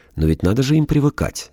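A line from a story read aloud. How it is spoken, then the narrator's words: Uncertain woman. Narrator (Russian): неуверенно сказала самая красивая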